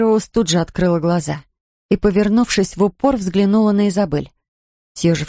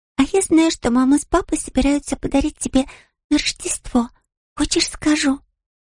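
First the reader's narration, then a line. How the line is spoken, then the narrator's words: Girl whispering into ear. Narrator (Russian): Девочка прошептала в ухо Мэри Роуз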